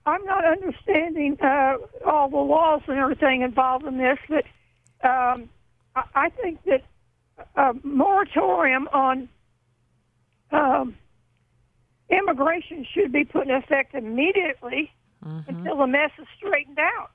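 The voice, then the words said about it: Unwell voice, still recovering. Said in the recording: “excuse my voice. I'm recuperating.”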